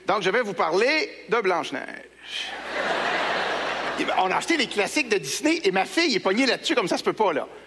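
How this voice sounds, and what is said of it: Québécois French accent. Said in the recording (French): “cet accent québécois, mais c'est aussi de la musique, c'est de l'air absolument extraordinaire”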